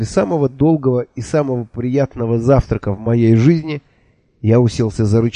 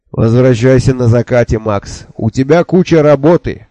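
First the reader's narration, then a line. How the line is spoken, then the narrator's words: Shouted after. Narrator (Russian): крикнул мне вслед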